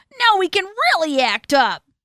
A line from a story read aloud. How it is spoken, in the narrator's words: yelled the kids